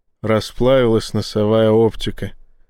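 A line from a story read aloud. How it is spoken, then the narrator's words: Sighed. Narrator (Russian): вздохнул Боровский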